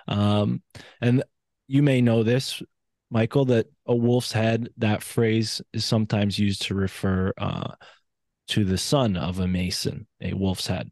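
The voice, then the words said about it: East Coast American accent. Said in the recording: “my East Coast accent”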